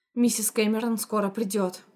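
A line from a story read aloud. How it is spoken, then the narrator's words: Plain. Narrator (Russian): сказала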